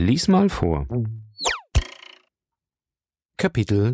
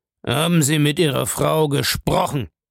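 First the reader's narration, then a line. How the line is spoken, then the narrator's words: Gruff question. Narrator (German): fragte Bellamy barsch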